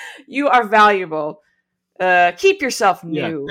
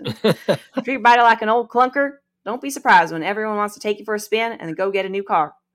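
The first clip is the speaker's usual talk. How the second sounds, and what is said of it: Put-on Southern accent. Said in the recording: “I just want to say that in a Southern accent for some reason.”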